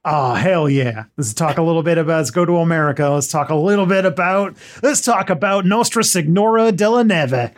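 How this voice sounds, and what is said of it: Put-on American accent. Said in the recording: “do your best American accent.”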